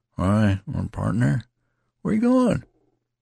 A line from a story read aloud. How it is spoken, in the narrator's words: asked unsteadily